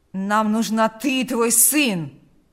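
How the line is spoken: Growling. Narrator (Russian): прорычал Карп

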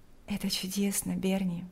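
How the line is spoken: Quiet. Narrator (Russian): тихо сказала Лика

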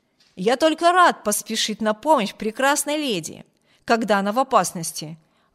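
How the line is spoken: Exclaiming. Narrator (Russian): воскликнул полковник

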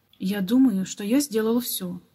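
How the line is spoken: Dejected, doubtful voice. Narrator (Russian): уныло проговорил Баннер, но в голосе его звучало сомнение

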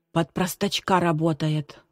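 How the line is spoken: Excited exclamation. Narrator (Russian): взволнованно воскликнул Женя

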